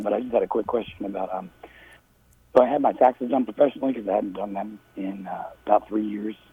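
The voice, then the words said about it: Hoarse, strained voice. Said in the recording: “I have laryngitis”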